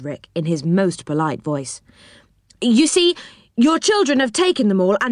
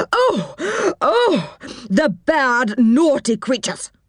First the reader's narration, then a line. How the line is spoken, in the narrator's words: cried the old woman